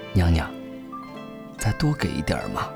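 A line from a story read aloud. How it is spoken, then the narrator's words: Soft pleading. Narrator (Chinese): 我的馋虫被勾起，小声恳求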